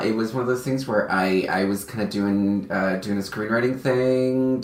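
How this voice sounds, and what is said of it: Slight Southern twang. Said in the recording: “if you hear a little twang in my voice”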